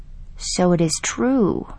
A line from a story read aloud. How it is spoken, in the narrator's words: said softly